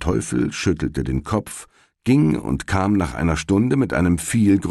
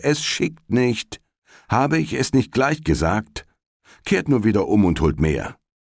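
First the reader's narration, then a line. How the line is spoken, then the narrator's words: Soldier calling out. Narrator (German): rief der Soldat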